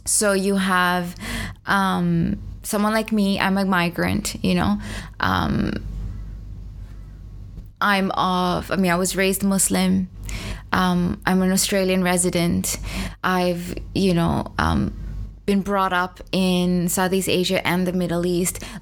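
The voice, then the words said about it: Mixed hard-to-place accent. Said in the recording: “My accent is a bit strange. I don't even know what it is. It's bastardized, basically... it's an amalgamation of cultures.”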